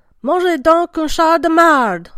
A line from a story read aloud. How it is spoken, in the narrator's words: Boucher yells